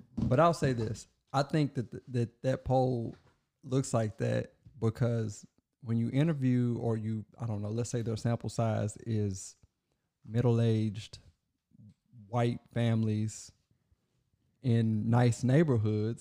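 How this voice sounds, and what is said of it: Hoarse, strained voice. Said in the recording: “I'm losing my voice, so this is terrible.”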